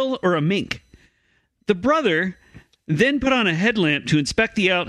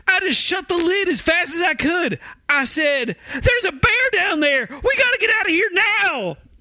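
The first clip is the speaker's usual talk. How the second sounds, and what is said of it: Scared voice, Alaskan-sounding. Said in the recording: “You sounded like a scared idiot from Alaska.”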